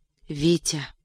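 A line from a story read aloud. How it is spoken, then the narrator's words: Sleepy whisper. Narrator (Russian): прошептала как бы сквозь сон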